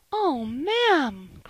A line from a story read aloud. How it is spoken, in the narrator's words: cried Polly, and she burst into a flood of tears